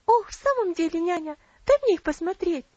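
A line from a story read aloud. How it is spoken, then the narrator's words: Impatient exclamation. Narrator (Russian): с нетерпением воскликнула Элси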